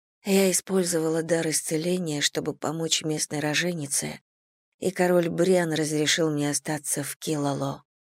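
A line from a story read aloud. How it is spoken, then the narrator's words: Whispered. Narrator (Russian): прошептала я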